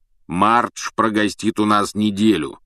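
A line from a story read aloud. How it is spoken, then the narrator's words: Deep bass voice. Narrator (Russian): пробасил дядя Вернон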